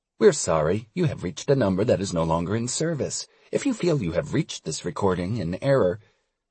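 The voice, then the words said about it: Fake automated phone recording voice. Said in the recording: “I fake an automated voice. ... my killer impression.”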